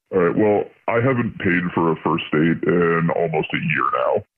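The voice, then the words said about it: Electronically altered disguised voice. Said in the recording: “The voice changer is on.”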